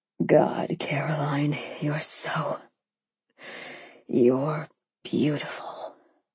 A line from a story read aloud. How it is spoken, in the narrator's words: he murmured